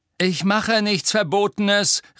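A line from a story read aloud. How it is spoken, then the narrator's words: Calling after someone. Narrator (German): rief Harry ihr nach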